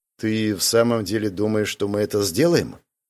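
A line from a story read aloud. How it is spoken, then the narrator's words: Quiet question. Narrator (Russian): тихо спросил Вальтер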